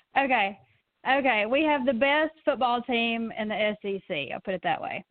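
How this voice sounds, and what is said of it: Alabama Southern US accent. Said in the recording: “Say a couple more things. A couple more things because of your accent. ... I'm from Alabama.”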